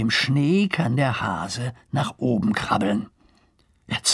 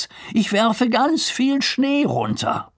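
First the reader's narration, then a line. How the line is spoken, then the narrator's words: Calling out. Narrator (German): ruft Lars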